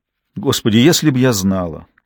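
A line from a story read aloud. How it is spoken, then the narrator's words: Sober, calm voice. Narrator (Russian): трезвым и спокойным голосом произнесла Биргитта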